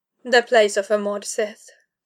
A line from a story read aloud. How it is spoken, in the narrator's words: she said coolly